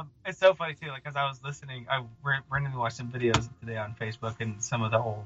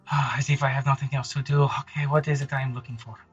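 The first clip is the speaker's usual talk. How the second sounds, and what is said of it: Outrageous exaggerated put-on accent. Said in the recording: “such an outrageous accent ... it would have been Monty Python's Holy Grail”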